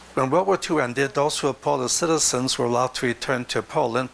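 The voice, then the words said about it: Speaks with a foreign accent. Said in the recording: “this will help to explain a small segment of my accent ... which will help to explain the second segment of the accent”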